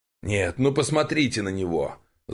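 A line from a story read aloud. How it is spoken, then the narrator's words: Elder's angry exclamation. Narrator (Russian): зло ухмыльнувшись, воскликнул старейшина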